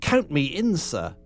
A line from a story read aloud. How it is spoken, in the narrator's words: yelped Ginger obsequiously